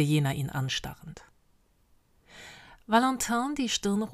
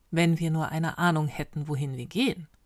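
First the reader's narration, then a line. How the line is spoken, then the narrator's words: Calm leader. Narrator (German): antwortete der Anführer ruhig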